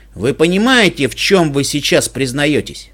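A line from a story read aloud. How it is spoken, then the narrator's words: Scornful snort. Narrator (Russian): Монтерей фыркнул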